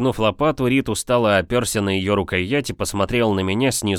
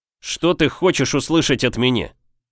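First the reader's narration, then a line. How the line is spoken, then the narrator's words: Irritated, sharp question. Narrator (Russian): Раздраженно и слишком резко спросил я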